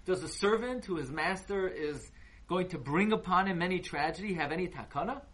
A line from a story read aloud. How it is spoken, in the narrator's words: Rabbi Yochanan cried whenever he got to this pasuk